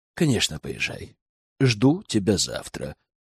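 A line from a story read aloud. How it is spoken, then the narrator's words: Clipped, measured. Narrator (Russian): отчеканил кузен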